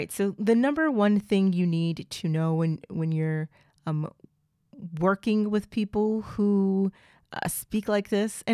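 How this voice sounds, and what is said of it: Southern US accent with drawl. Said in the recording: “I'm from the South. I am from Oklahoma. So I have a Southern accent ... Southern drawl”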